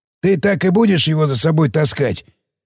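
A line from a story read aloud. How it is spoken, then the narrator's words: Hoarse, trembling while chewing. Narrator (Russian): кивнул сиплый, намеренно подрагивающий в такт жевательно-глотательным движением мешок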